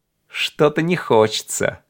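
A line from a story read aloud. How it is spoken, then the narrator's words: Laughing. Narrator (Russian): засмеялся Мартин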